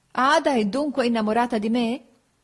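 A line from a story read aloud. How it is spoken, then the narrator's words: Laughing. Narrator (Italian): feci ridendo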